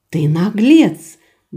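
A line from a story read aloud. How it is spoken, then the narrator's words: Breathy exhale. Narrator (Russian): выдохнула Рада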